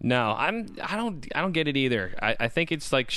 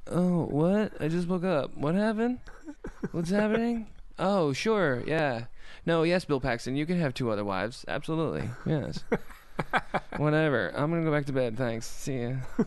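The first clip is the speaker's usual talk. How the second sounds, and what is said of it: Sleepy Chloe Sevigny impression. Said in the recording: “she looks like she's tired all the time ... That was an excellent Chloe Sevigny impersonation”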